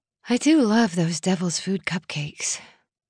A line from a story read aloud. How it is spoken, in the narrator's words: Hannah said dreamily